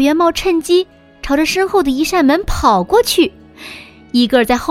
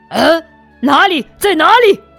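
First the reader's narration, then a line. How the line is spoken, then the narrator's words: Asking. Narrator (Chinese): 大嘴狼伊戈尔一边问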